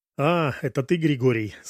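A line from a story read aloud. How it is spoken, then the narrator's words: Mocking. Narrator (Russian): сказала насмешливо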